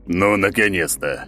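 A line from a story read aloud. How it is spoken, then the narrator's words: Booming deep voice. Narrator (Russian): пробасил он, так что в палате даже задрожали стены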